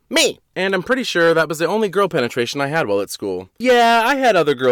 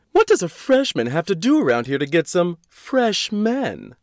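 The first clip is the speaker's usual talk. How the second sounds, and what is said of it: Bad Samantha from Sex and the City impression. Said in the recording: “my bad joke Samantha impression”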